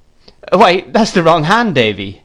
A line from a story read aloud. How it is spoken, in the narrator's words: laughed the gentleman